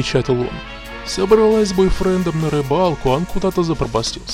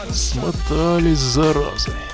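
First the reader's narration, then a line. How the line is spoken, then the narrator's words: Grumbling mutter. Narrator (Russian): бурчал Зеленка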